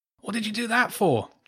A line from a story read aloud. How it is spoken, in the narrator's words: James grunted, cradling his now bleeding, throbbing finger